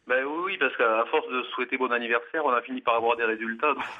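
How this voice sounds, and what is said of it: French provincial regional accent. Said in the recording (French): “j'ai un vieil accent provincial dont j'ai pas su me débarrasser”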